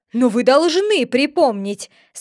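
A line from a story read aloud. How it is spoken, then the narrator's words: Angry. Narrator (Russian): сказал сердито король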